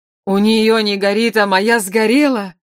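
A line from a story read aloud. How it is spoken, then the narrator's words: Grief-stricken groan, then roar. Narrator (Russian): Простонал убитый горем Калибан и заорал так, что качнулось пламя свечей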